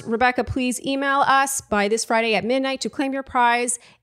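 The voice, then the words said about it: Very fast speech. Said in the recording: “say this really fast.”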